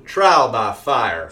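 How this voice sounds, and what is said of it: Georgia Southern accent. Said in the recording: “I should be saying that in my Georgia accent.”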